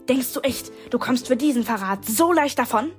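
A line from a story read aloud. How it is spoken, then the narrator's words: Hissed. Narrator (German): fauchte Avery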